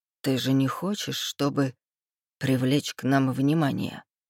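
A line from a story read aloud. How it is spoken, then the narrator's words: Slurred mutter against lips. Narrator (Russian): Пробормотал Рейв мне в губы заплетающимся языком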